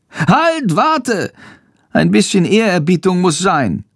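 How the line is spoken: Call. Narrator (German): ruft

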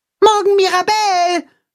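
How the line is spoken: Call after. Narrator (German): ruft Max ihr nach

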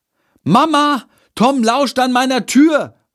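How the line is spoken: Loud call. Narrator (German): ruft er laut

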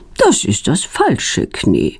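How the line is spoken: Calm. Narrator (German): sagt sie ruhig

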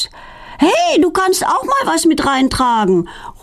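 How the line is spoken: Calling after her. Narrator (German): ruft Feline ihr hinterher

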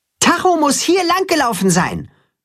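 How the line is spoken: Calling toward pasture. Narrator (German): ruft er Richtung Weide

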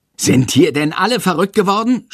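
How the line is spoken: Yelling. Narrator (German): schreit Herr Lersico

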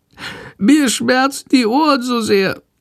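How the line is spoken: Meek whining, sick. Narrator (German): jammert die kranke Fledermaus ganz kleinlaut

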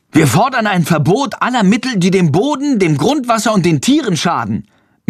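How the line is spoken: Loud interjection. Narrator (German): mischt Friedrich sich laut ein

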